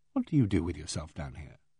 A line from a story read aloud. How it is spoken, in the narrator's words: I said gently